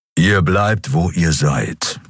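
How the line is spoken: Growl. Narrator (German): knurrte er

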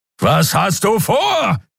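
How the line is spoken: Roaring again. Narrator (German): brüllte Kero wieder

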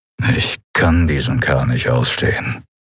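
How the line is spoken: Growling. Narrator (German): knurrte Telios

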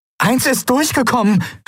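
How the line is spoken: Calling out. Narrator (German): rief sie

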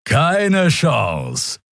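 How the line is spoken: Laughing. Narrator (German): Er lachte

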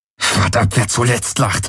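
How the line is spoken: Hissing. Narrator (German): zischte Garland

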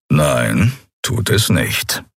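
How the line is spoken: Calm. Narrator (German): erwiderte Keru ruhig

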